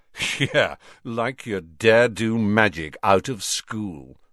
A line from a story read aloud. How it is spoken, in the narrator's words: sneered Malfoy